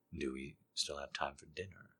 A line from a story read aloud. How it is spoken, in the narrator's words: He whispers against my ear